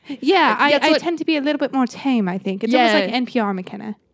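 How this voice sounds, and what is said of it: Put-on British accent. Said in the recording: “British ... in a British accent”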